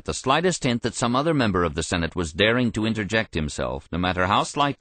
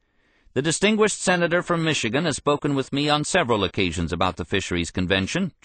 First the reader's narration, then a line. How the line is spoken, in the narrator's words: Johnson replied